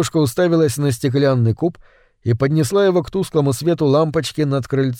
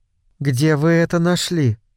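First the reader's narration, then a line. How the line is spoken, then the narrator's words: Calm question. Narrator (Russian): спокойно спросила она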